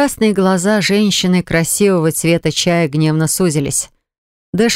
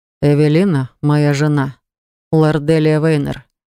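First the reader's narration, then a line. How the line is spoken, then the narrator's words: Soft speech. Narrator (Russian): мягко сказал Дэшерт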